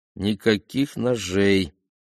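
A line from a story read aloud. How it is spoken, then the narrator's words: Distracted, through gritted teeth. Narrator (Russian): рассеянно процедил командир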